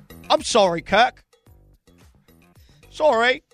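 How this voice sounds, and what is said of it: Apology in put-on British accent. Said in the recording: “apologize with the British accent ... apologize in a British accent”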